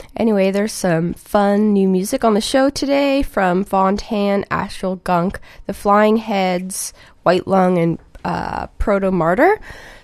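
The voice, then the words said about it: Scratchy, slightly sick voice. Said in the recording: “I'm a little sick this week, so I might sound even weirder than I usually do ... my voice is a little scratchy today”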